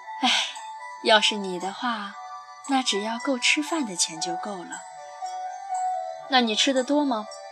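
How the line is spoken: Sighing reply. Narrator (Chinese): 三毛叹了口气答

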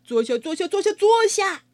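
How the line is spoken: Continued calling. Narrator (Chinese): 露塔继续叫

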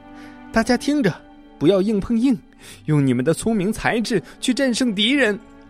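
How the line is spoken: Shout. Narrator (Chinese): 小红喊道

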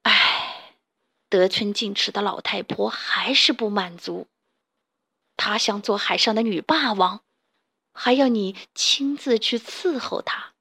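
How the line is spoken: Fisherman through gritted teeth. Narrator (Chinese): 渔夫咬咬牙，对金鱼说

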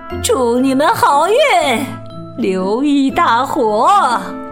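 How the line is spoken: Sudden loud. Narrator (Chinese): 突然，他大声说道

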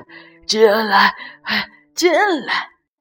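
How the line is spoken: Breathless. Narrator (Chinese): 圆胖医生就气喘吁吁地说

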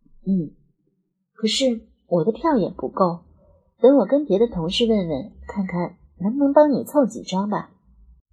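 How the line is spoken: Flat, cool. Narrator (Chinese): 心里不由就有几分不得劲，淡淡的说

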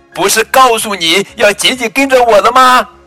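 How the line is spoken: Loud calling. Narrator (Chinese): 丽塔大声叫着

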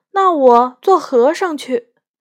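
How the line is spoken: Crying. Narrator (Chinese): 宝玉马上哭着说

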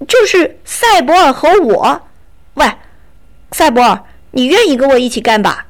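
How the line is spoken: Calling out. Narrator (Chinese): 卡斯佩尔叫道

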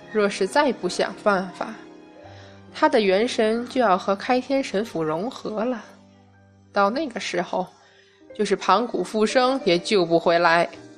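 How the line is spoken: Old voice, cold sneering laugh. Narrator (Chinese): 苍老的声音附而冷笑起来

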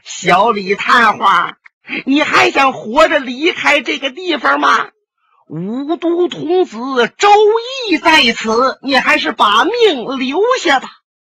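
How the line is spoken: Shrill laughter. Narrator (Chinese): 树林里边，突然传出了一阵尖笑声

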